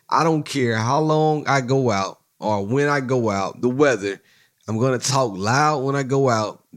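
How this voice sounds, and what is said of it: Hoarse, strained voice. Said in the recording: “my voice is not where it needs to be. My voice is gone. I'm trying to hold it together, but my voice is gone.”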